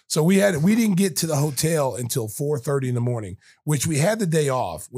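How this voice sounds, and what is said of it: Hoarse, scratchy voice. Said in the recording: “my voice is gone right now ... the scratchy voice”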